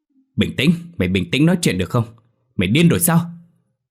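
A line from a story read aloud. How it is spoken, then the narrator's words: Repeated frantic shouting. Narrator (Vietnamese): Tuấn liên tục hét lên với Thiện rằng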